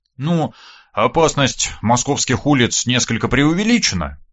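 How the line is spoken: Amused snort. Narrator (Russian): я хмыкнул

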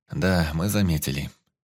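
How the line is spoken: Sighed. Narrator (Russian): вздохнул Сашка

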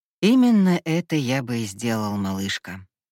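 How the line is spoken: Plain. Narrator (Russian): ответил Эль

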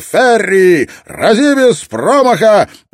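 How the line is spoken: Booming voice. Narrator (Russian): прогремел

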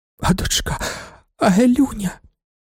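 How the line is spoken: Old woman whispering. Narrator (Ukrainian): прошепотіла стара

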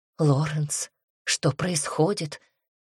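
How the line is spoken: Trembling voice, question. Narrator (Russian): дрогнувшим голосом спрашивает Диана

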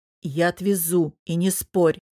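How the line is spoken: Growl. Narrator (Russian): прорычал он

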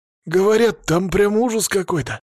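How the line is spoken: Nervous exhale. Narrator (Russian): выдохнул козлобородый некромант, пытаясь унять нервную дрожь

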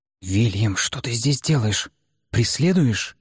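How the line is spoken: Hissed. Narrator (Russian): Прошипела Флоренция

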